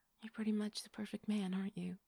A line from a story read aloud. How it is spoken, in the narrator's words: she said